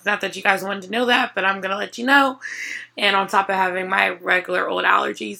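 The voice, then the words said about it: Sick-sounding voice. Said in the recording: “my voice sounds like this every day, all day, for the last 2 months. I sound crazy ... she still sounds sick to me”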